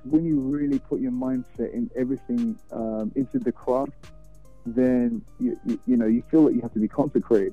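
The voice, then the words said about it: Slight non-Texan accent. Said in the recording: “there's a little bit of an accent there. You know, it doesn't sound like that native Texas accent either”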